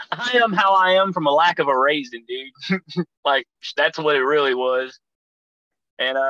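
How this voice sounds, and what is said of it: Usual voice. Nothing is said of it.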